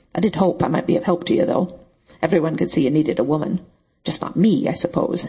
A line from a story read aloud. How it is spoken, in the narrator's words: she added bitterly